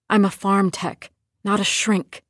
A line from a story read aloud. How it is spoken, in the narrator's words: she'd whisper